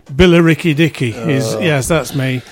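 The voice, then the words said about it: Put-on Essex accent. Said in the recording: “you can't do the accent for that, can you? ... Essex.”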